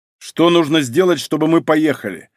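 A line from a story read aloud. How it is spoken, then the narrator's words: Sharp question. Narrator (Russian): резко спросил Малинин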